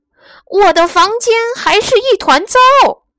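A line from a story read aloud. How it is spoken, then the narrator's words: Wretched wail. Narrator (Chinese): 他惨叫一声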